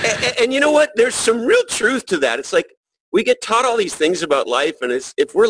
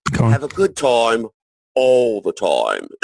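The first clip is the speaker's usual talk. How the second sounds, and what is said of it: Put-on British accent. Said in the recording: “with their fake British accent, which I'll now try to imitate ... That was pretty good.”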